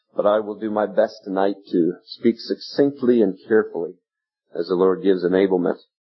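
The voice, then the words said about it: American drawl. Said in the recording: “the old curses of all curses, the American drawl”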